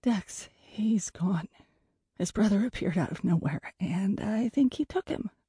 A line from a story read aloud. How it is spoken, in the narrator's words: whispered frantically